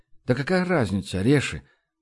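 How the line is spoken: Sighing. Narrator (Russian): Баст вздохнул

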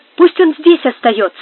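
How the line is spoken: Exclaimed. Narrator (Russian): воскликнула Амаранта

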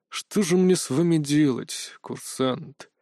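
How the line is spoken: Heavy sigh. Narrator (Russian): Тяжело вздохнул директор

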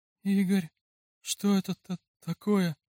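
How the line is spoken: Trembling voice. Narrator (Russian): дрожащим голосом спросила она

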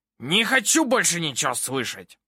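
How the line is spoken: Barking. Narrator (Russian): Рявкнул судья

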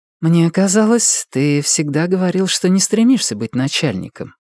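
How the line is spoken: Gentle objection. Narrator (Russian): мягко возражает она

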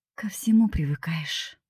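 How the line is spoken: Man's inward sigh. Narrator (Russian): вздохнул про себя мужчина

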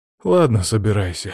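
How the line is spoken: Sighing. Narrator (Russian): вздохнув

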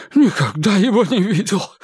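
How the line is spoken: Breathed out. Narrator (Russian): выдохнул Кулпеппер

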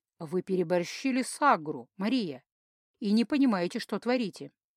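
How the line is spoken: Sad remark. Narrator (Russian): как-то грустно сообщил синеглазый

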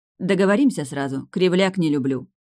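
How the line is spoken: Stern. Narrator (Russian): строго сказала Варвара

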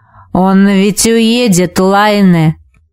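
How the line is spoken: Hoarse rasp. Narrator (Russian): прохрипел Витус

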